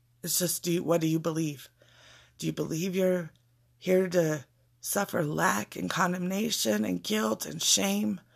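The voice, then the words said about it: Crackly, fading voice. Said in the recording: “forgive my voice. It's a little crackly and I guess it's going out”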